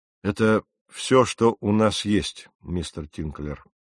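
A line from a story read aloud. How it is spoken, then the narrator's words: Sighing reply, captain. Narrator (Russian): вздохнув, ответил капитан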